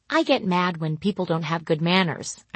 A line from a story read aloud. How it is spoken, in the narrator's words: I say calmly